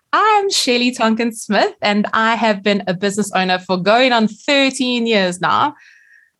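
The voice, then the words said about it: South African accent. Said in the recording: “this South African accent”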